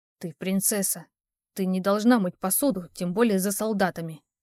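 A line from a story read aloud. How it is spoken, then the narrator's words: Young man's near hiss. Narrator (Russian): почти прошипел парень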